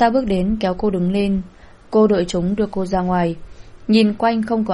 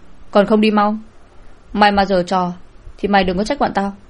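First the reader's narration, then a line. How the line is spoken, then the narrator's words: Loud shout. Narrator (Vietnamese): Tên kia quát lớn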